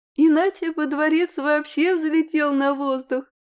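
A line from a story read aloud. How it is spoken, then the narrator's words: Chuckling. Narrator (Russian): хохотнула та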